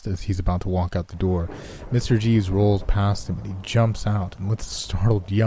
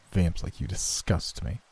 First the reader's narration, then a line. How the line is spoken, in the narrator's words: hisses angrily